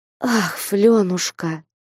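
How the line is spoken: Tender, affectionate. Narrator (Russian): С сердечным умилением нежно и ласково продолжала игуменья

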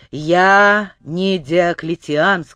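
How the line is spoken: Displeased. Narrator (Russian): сказал он недовольным голосом

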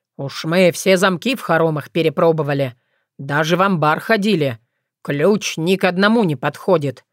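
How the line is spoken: Deep bass voice. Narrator (Russian): пробасил Дубыня

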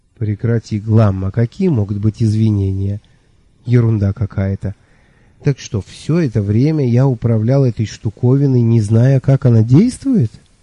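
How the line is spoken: Tired sigh. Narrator (Russian): Я устало вздохнул

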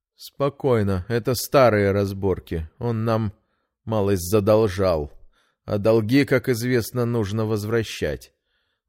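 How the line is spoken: Even, calm voice. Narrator (Russian): ровным голосом пояснил незнакомец

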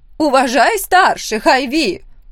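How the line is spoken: Loud. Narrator (Russian): громко сказала она

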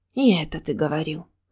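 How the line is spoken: Sighing. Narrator (Russian): вздохнула я

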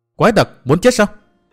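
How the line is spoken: Loud shout. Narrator (Vietnamese): Bích Duyên Hồng hét to

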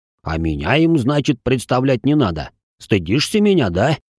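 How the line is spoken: Grumbling. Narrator (Russian): проворчал Али

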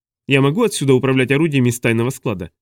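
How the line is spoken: Plain. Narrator (Russian): спросила она

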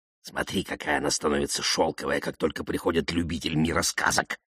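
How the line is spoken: Whisper. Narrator (Russian): шепнул Карлсон малышу

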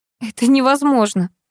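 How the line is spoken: Laughing. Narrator (Russian): засмеялась

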